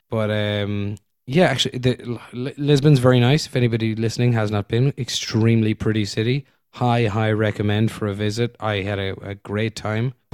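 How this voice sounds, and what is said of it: Hoarse, weakened voice. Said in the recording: “We haven't even commented on your voice yet ... I got a little bit sick ... Lost my voice.”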